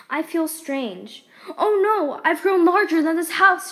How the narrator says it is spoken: she cried

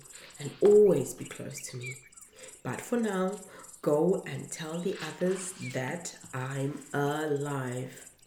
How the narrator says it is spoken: Jesus said gently

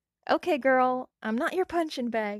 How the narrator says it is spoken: Alia exclaimed

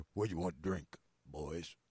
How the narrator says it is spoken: The barmaid asks in a hoarse barmaid baritone voice

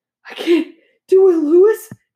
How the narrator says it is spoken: he gasped

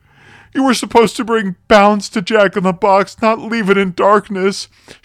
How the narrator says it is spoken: she groaned, trying to escape his grasp

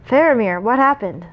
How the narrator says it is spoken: Boromir cried from atop the wall, his voice booming across the plain

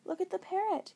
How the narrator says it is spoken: Kendra exclaimed

